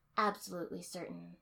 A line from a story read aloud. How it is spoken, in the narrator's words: I said flatly